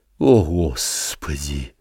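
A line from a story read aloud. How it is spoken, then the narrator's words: Spoken with heavy sigh. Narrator (Russian): проговорил он и тяжело вздохнул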